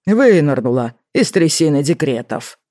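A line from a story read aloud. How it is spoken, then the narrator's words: Wry snort, boss. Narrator (Russian): хмыкнул начальник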